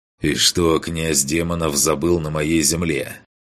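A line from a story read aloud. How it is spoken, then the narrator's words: Cold. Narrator (Russian): холодно произнес он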